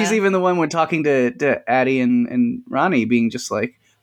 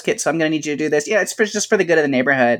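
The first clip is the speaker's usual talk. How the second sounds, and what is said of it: Impression of nosy neighbor character. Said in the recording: “Very good impression. Very good impression.”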